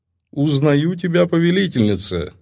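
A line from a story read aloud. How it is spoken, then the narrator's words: Laughing. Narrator (Russian): рассмеялся владыка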